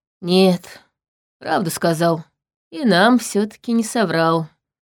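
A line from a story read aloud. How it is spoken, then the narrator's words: Sighing. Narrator (Russian): вздохнул Тайриль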